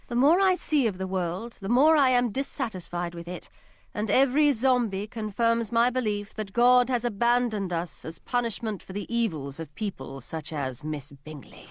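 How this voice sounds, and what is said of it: British accent. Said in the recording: “a wonderful British accent”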